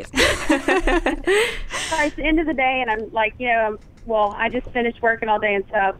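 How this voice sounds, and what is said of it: Strong Southern US accent. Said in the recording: “You're so country ... when I'm tired, sometimes my accent comes out more ... you're extra Southern at the end of the day”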